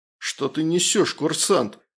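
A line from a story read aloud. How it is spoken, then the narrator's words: Indignant exclamation. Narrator (Russian): возмущенно воскликнул майор Прошин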